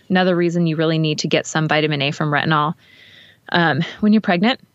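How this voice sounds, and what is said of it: Breathless, excited speech. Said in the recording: “I'm like out of breath because I get so excited.”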